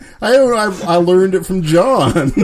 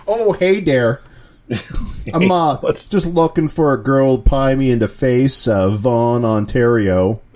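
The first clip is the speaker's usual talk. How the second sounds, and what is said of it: Unconvincing put-on Canadian accent. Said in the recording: “your Canadian accent is suspect ... Are you sure you're Canadian?”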